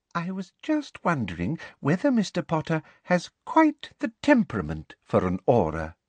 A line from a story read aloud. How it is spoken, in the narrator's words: said Professor Umbridge sweetly